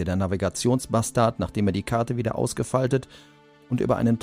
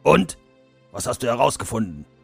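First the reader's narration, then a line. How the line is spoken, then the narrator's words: Stern question. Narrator (German): fragte Schlachtgol streng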